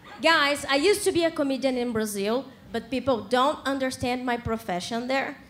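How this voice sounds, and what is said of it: Brazilian-accented English. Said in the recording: “because of my accent ... because of my pronunciation, people understand cleaning lady”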